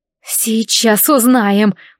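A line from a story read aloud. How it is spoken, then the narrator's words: Strained, through clenched teeth. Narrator (Russian): процедила я через стиснутые от усилия зубы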